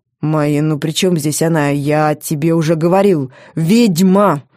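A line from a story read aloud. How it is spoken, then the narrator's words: Growled. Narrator (Russian): рыкнул он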